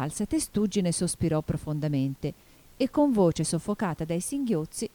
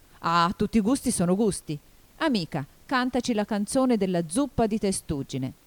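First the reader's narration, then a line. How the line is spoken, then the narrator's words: Offended shout. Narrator (Italian): il grifone, offeso, gridò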